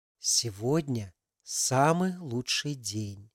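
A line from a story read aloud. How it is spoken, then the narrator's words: Quiet voice. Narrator (Russian): тихим голосом начала Валя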